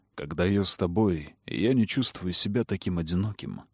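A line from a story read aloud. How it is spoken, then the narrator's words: Murmur. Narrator (Russian): пробормотал Кэллум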